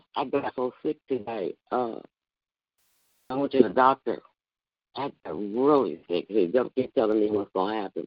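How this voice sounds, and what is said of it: Hoarse, sore-throated voice. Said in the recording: “I apologize for my voice. It's so hoarse ... that's why I'm hoarse ... it made my whole throat sore”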